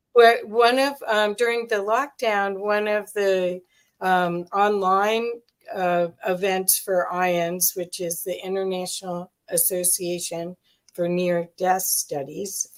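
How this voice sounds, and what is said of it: Speaks with a noticeable accent. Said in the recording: “for those that can't understand my speaking, my accent.”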